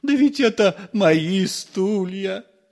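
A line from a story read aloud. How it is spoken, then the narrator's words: Groaning. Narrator (Russian): простонал отец Федор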